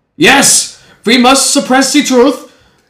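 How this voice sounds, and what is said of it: Put-on German accent. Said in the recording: “excuse the German accent”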